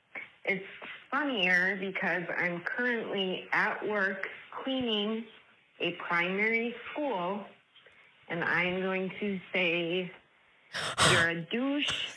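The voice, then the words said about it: Distinctive regional accent. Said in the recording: “Love her accent.”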